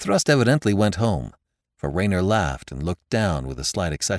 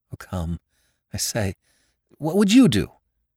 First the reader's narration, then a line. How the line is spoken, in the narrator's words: he stammered